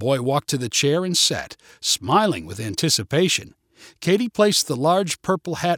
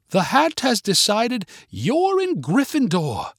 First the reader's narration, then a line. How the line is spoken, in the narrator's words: Katie exclaimed